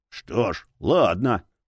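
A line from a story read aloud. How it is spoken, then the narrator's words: Gruff mutter. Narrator (Russian): буркнул Боул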